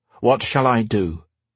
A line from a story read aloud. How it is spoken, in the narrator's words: asked each